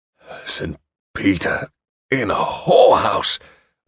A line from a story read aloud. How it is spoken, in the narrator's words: Westhaven muttered